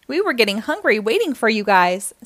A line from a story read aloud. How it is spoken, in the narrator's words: said Tasha